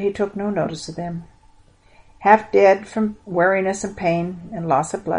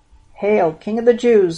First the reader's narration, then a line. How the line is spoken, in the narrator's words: they sneered